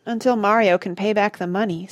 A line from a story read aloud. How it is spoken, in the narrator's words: sighed Chester